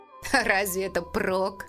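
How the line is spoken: Snorted. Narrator (Russian): фыркнул Эймос

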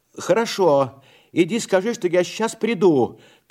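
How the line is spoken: Shouting. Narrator (Russian): крикнул я

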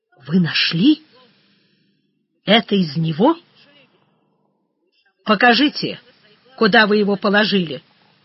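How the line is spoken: Calm. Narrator (Russian): спокойно сказал Панков

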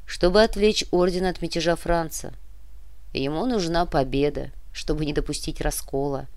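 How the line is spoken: Calm addition. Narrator (Russian): спокойно добавил барон Мечислав

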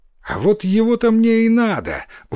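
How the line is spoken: Exclaiming. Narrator (Russian): воскликнул Иссумбоси

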